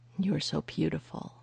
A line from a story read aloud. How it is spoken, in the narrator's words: he murmured